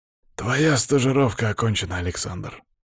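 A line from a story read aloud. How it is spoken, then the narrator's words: Quiet. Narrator (Russian): тихо произнес он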